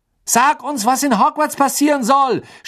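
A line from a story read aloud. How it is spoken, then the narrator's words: Shouting from window. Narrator (German): schrie Fred aus dem Fenster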